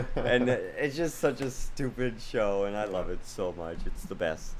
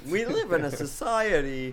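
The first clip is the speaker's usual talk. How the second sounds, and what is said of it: Impression of a sitcom character. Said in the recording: “my George impression”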